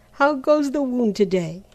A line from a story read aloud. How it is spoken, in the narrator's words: he cried cheerily